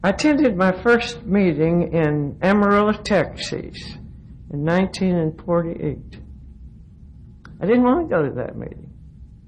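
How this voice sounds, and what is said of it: Southern Appalachian accent. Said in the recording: “if you haven't picked up on the accent, I'm a Texan by marriage, but I'm a hillbilly... I grew up in the hills of North Carolina”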